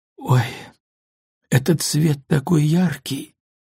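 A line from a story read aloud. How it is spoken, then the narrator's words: Moaning. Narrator (Russian): простонала Софи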